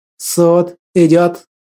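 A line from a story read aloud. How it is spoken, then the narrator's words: Solemn proclamation. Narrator (Russian): торжественно провозгласил Виктор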